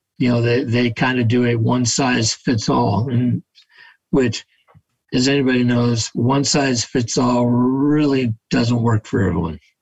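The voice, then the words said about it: Voice giving out, strained. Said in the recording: “I was losing my voice there.”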